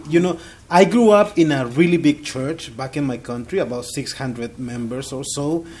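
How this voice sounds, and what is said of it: Non-native English accent. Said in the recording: “As you can tell by my accent, English is not my first language.”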